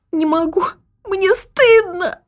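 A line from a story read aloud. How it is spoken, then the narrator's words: Tearful mumble. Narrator (Russian): сквозь слезы пробормотала Антонина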